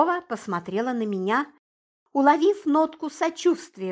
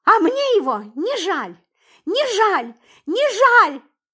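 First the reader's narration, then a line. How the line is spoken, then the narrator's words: Hysterical screaming. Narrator (Russian): в истерике кричала Суркова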